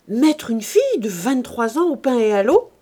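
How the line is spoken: President's exclamation. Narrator (French): s'écria le président de Bonfons

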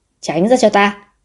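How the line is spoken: Angry shout. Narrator (Vietnamese): Lòng mình tức giận quát

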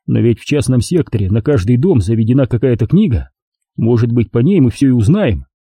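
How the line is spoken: Glum agreement. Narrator (Russian): уныло согласился

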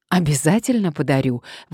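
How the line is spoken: Exclaiming. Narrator (Russian): воскликнула Мария

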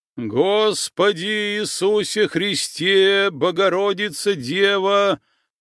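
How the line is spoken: Loud chanting. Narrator (Russian): громко затянул отец Амвросий

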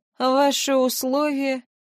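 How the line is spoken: Tired question. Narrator (Russian): устало поинтересовался

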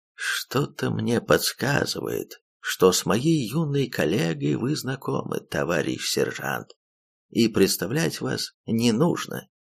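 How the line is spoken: Intimate, hushed tone. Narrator (Russian): камерным тоном уведомил мужчина

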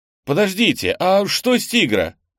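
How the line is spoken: Shouted after. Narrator (Russian): крикнул ему в спину Кенни

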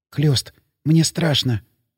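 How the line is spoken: Whisper. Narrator (Russian): шепнула она мне

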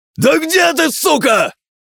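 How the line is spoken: Exasperated shout. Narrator (Russian): Не выдержав, закричал Гин

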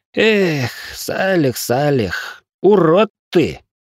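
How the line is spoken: Upset sigh. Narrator (Russian): огорченно вздохнул графёныш

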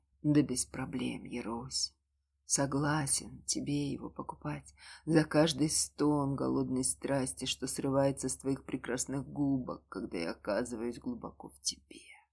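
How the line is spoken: Whisper in ear. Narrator (Russian): прошептал ей на ушко

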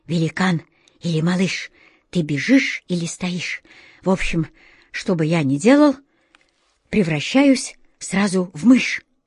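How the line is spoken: Breathless hurried whisper, exhausted cat. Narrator (Russian): Из последних сил заторопился кот Васька задыхаясь, прошептал

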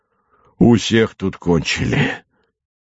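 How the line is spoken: Hoarse wheezing voice from cold. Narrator (Russian): говорил простуженным хрипящим голосом Сальников

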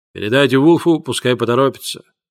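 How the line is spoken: Soft, gentle. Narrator (Russian): мягко сказал Болтон

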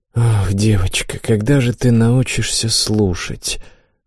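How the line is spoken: Mother's sigh. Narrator (Russian): вздохнула мать

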